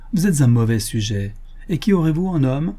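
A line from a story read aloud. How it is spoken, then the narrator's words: Said laughing. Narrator (French): dit en riant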